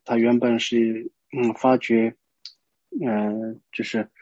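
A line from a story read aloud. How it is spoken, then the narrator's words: Deeply sorrowful lament. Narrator (Chinese): 他以极悲伤的神情哀叹道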